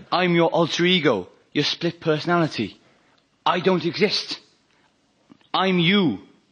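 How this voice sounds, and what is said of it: Welsh accent. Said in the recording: “a split personality which inexplicably has a Welsh accent”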